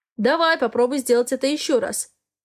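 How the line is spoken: Growled. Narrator (Russian): рычал он

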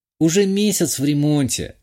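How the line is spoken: Sigh. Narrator (Russian): вздохнула

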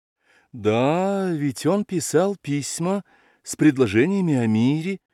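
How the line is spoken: Timid agreement. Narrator (Russian): робко поддакнул князь

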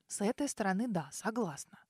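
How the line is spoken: Muttered. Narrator (Russian): пробормотала она

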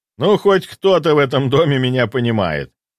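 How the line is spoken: Good-natured laughter. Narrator (Russian): добродушно рассмеявшись, произнес Виталий Алексеевич

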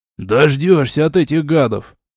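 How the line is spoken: Grumbling guard. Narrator (Russian): проворчал стражник

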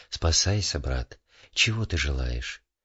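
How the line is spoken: Quiet abbess's voice. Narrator (Russian): игумени и сказала тихим голосом

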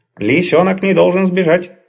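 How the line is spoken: Angry grumbling. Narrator (Russian): сердито заворчал человеческий голос

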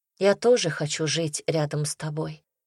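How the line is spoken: Quiet reply. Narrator (Russian): тихо ответила я

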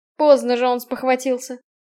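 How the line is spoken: Smirking grunt. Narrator (Russian): хмыкнул Роле

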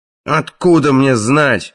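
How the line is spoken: Barked. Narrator (Russian): рявкнул Краннан

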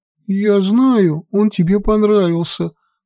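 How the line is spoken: Little sister sobbing. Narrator (Russian): всхлипывала сестренка

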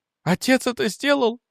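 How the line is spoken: Cried out. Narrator (Russian): вскрикнула она

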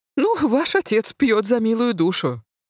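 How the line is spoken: Snorting stepmother. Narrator (Russian): фыркнула мачеха

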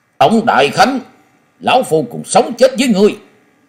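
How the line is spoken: Roaring like a tiger. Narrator (Vietnamese): phiêu bình khách Lý Kỳ giọng như hổ gầm nói

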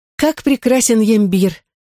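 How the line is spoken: Exclaimed. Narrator (Russian): воскликнула Фьоре

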